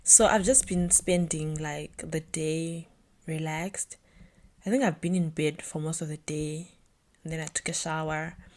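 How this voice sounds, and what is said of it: Tired, breaking voice. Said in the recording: “I'm a little exhausted right now ... my voice is kind of I can feel my voice breaking ... my voice is exhausted”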